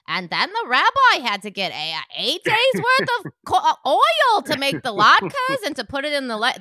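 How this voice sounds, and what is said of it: Accented impression of cartoon characters. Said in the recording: “that's how all the women are talking in it ... I'm not liking the accent ... I'm just doing an impression of the show.”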